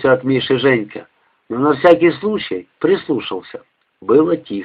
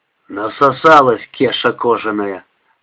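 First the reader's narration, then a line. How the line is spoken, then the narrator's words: Creaky voice. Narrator (Russian): проскрипел Миша Попов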